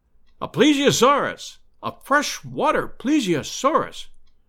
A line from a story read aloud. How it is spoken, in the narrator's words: cried Summerlee